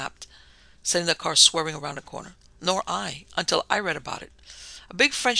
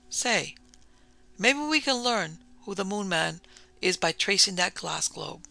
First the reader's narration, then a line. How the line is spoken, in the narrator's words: McEwen exclaimed